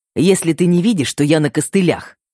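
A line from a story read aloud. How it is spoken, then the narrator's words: Snapping irritably. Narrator (Russian): огрызнулся Феликс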